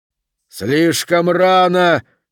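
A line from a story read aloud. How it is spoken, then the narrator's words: Shouted. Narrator (Russian): крикнул Хорлокер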